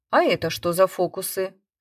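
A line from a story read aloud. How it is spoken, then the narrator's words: Cold question. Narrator (Russian): холодно спросил я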